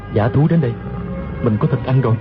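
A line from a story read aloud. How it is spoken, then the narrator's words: Delighted muttering. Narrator (Vietnamese): Tiêu Phong cả mừng lẩm bẩm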